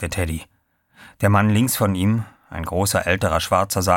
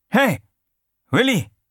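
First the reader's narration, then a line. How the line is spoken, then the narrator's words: Called out. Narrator (German): rief er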